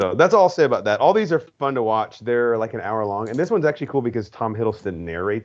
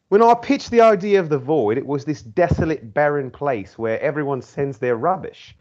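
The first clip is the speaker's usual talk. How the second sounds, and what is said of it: Put-on British accent. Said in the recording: “I'm going to read it in a British accent.”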